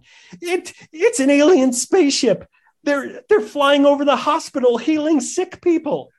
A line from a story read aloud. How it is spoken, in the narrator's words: Dolores hysterically responded